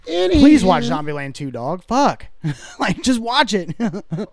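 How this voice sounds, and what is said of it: Yelling, loud excited voice. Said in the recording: “Why are you yelling? ... Why are you yelling, man?”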